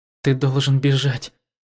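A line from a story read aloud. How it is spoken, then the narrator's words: Worried voice. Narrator (Russian): обеспокоенным голосом сказала Юхуан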